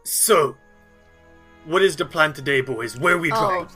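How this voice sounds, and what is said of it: Put-on fantasy dialect voice. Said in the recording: “It is a Rooksy dialect.”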